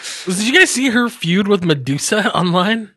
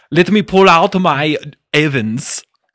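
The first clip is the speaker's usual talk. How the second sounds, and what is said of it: Put-on Welsh accent. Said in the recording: “I don't know if that's a Welsh accent. That's a pretty perfect Welsh accent, though.”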